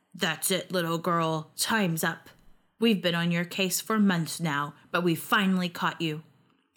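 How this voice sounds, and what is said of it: Gruff voice. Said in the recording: “In a gruff voice,”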